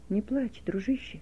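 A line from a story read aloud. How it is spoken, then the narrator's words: Whisper. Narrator (Russian): прошептал он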